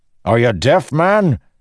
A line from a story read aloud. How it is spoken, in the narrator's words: Dalinar snapped